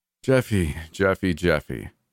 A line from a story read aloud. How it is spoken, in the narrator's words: he sighed